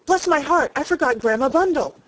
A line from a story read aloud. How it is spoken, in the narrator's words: Lorry cried out